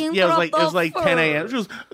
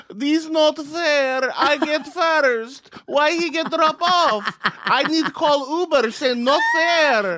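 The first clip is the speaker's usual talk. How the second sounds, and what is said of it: Imitated Russian accent. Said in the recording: “does she have a Russian accent? ... And she was.”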